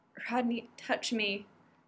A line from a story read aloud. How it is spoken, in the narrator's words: John said, his voice barely a whisper